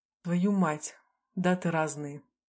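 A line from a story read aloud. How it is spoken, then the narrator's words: Exhaled. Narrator (Russian): выдохнул Теон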